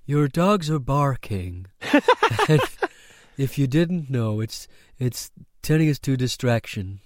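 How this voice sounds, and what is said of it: Creepy, frightening faceless character voice. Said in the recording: “voiced by a faceless person, and they talk like this ... that voice you're doing there is actually frightening me a bit”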